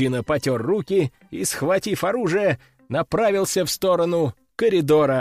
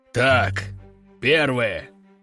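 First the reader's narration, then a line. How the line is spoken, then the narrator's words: Deep bass. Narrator (Russian): пробасил Лежаков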